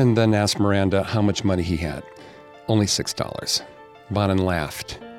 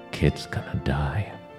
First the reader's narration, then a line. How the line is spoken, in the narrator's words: Bonin whispered to Miley